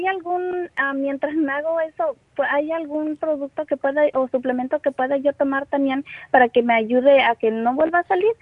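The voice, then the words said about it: Young girlish voice. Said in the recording (Spanish): “Tienes voz de niñita”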